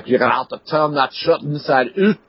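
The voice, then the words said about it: Rough put-on Scottish accent. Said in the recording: “my best attempt at a Scottish accent. I'm sorry, it was probably horrible.”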